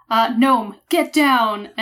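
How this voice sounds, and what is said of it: Assertive, intimidating commanding voice. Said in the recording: “my very assertive kind of scary voice, my adult voice ... angry mom voice ... An intimidating voice?”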